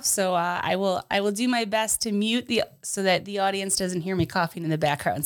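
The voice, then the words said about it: Voice a little off from cold. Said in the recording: “this summer cold is killing me. So if you're listening and my voice sounds a little off”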